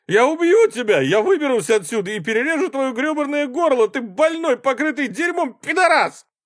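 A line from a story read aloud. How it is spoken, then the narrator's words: Shout. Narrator (Russian): Алан закричал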